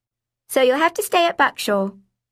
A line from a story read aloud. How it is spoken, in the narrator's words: I blurted